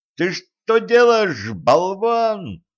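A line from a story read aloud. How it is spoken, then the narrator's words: Howling. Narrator (Russian): взвыл Денис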